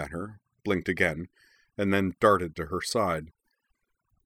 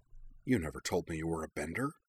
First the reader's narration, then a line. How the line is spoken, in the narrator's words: Katara muttered over her shoulder